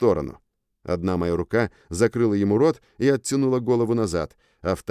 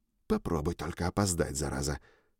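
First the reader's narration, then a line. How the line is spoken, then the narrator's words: Whisper. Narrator (Russian): шепнул я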